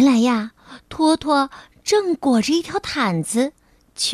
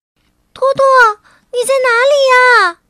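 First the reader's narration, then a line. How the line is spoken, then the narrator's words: Loud calling. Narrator (Chinese): T T 大声喊道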